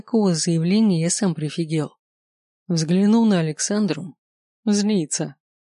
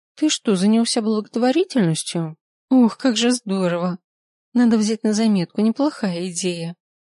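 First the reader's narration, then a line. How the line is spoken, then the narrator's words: Cheerful chirping. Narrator (Russian): Щебетала она, весело подпрыгивая у меня на коленях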